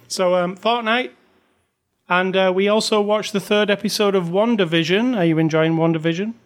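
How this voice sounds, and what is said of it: Accent, Wanda sounds like Wonder. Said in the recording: “It sounds like you're saying WonderVision, and I realize it's your accent”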